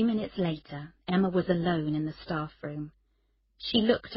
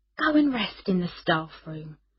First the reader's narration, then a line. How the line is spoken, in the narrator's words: said Scott kindly